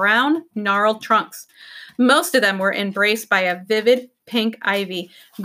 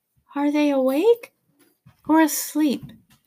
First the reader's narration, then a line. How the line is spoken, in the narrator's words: she whispered